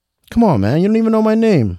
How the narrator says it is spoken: Ricky exclaimed

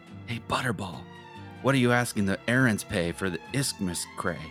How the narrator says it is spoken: Little Pete whispers to Big Pete

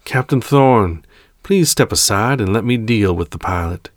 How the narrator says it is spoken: the Emperor calmly called out

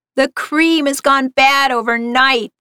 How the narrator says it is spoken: screeched

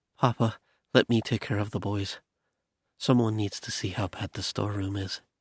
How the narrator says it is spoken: she said in a hurried tone

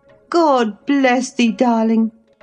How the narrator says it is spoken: I cried, forgetting instantaneously my foolish fears

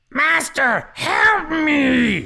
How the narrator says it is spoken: He shouted

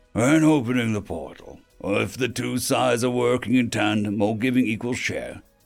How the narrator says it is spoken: he said in a casual tone

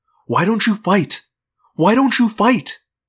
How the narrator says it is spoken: I'm mad at those poor people, and I want to yell

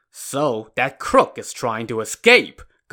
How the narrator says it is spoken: Gao Qiu said furiously

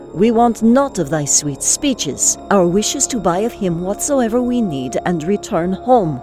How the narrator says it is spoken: I said sharply to her

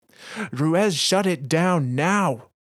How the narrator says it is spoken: Bray yells

